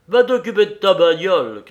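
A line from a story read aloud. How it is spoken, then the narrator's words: Shouting. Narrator (French): criait-il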